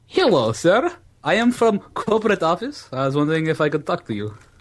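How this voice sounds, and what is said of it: Put-on foreign accent. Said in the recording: “A different stupid accent.”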